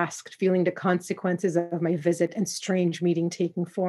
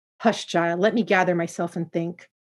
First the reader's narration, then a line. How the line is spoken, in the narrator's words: she replied in an unusually short tone